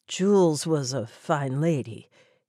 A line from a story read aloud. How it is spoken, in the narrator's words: he said in a low, hoarse voice